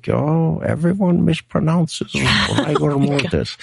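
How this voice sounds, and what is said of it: Imitates another person's voice, accent. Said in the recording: “that was a great accent.”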